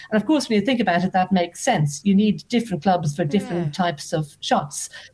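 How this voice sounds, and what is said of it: Irish Dublin accent. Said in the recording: “I grew up actually in Dublin. You might hear from the accent”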